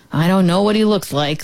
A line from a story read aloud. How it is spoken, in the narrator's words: the farmer said